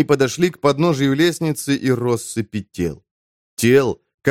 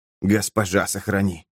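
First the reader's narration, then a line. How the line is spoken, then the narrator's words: Whisper. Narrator (Russian): прошептал Эмид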